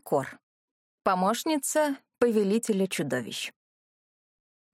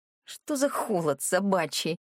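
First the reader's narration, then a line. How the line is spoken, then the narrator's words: Displeased mutter. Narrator (Russian): пробормотала недовольно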